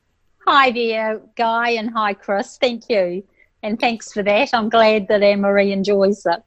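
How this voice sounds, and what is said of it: New Zealand accent. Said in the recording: “I'm just picking up that accent ... that's a Kiwi twist I can hear in there”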